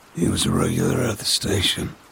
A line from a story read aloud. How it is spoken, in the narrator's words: Edward said, his voice a dry whisper